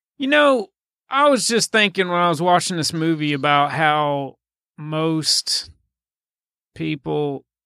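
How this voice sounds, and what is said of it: Broad caricatured Southern accent. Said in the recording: “we're allowed to do this like really broad Southern caricature because we're from the South”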